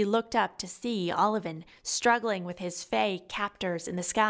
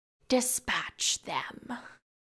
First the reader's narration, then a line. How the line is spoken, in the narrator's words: Riklar ordered offhandedly